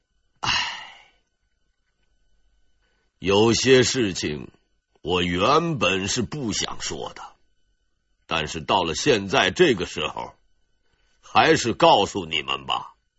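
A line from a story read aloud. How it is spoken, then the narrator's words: Sudden sigh. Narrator (Chinese): 杨善突然叹了口气，说道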